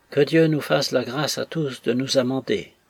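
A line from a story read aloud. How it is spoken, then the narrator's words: Sighing toast. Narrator (French): soupire Tollinson, en manière de toast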